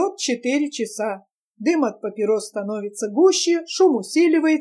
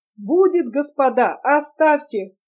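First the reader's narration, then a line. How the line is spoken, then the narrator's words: Struggling plea amid laughter. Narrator (Russian): Вырываясь из могучих рук его, упрашивал Татарников при громком хохоте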